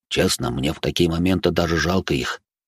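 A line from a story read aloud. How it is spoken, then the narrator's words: Near whisper. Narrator (Russian): тихо, практически шепотом произнес Де Журиньи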